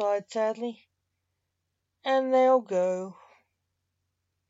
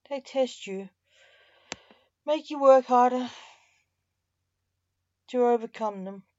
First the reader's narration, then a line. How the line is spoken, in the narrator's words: the Reaper said sadly